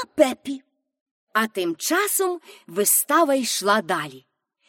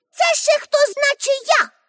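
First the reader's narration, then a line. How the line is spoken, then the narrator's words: Shouted. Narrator (Ukrainian): крикнула Пепі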